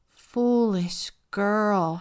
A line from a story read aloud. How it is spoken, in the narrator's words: her mother moaned